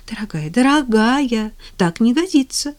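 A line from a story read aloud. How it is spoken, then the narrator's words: Exclaiming, changed tone. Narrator (Russian): воскликнула она совершенно другим тоном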